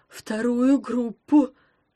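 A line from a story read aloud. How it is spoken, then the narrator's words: Trembling mumble. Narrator (Russian): дрожа промямлил бармен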